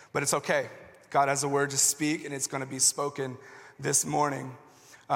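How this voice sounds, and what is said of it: Hoarse, fading voice. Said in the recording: “as you can probably hear, I'm already losing my voice ... my voice is starting to go out”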